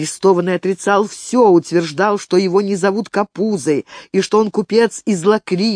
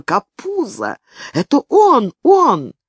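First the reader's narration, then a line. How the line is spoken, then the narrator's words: Exclaimed. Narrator (Russian): воскликнула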